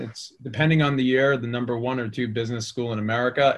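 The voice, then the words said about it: Boston accent. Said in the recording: “as you can probably tell by my accent, I grew up in the Boston area”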